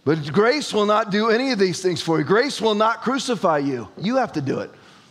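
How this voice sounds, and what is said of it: Screaming, loud forceful preaching. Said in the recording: “stop screaming”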